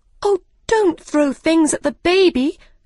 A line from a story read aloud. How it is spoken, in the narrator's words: cried Alice